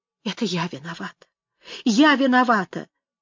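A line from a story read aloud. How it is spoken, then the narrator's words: Crying through tears. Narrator (Russian): Она плакала, повторяя сквозь слезы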